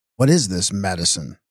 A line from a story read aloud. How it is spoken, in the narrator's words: snapped